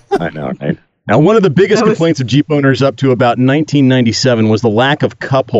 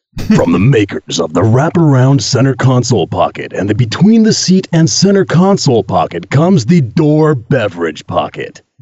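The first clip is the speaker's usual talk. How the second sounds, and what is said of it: Dramatic movie-trailer announcer voice. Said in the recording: “I should probably do this one at least the first sentence or so in my movie voice.”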